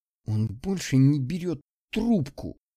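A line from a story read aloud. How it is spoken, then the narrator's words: Through teeth, angry, hurt. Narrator (Russian): сказала она сквозь зубы, не скрывая злость и обиду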